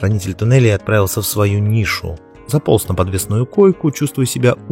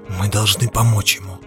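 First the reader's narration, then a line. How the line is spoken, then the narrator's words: Hoarse whisper. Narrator (Russian): хрипло прошептал Дзирт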